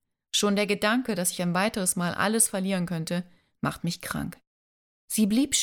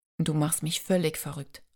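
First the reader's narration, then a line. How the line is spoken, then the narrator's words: Murmured. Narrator (German): raunte Carter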